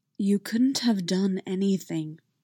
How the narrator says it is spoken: said softly

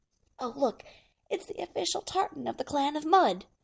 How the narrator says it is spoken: Rodney leans close to John and whispers

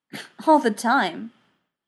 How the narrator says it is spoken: McKay replied with a snort

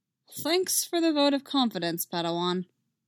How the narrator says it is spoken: Quinlan said dryly

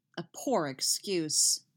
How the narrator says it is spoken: she grumbles

